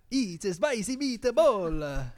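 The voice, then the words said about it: Put-on Italian accent. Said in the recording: “Try one. Try an Italian accent.”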